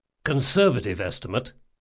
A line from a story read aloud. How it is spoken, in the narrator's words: said Jean